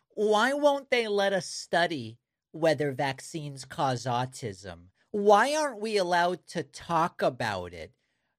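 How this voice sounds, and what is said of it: Impression of a MAGA supporter. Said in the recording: “my impression of a MAGA talking about vaccines and autism”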